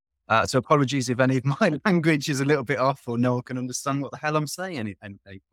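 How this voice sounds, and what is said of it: Northern English accent. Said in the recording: “your accent right off the bat, you are not American ... I'm British. I'm from a little town in the north of England”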